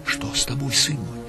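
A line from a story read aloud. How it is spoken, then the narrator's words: Worried whisper. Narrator (Russian): прошептала Матерь Божия с беспокойством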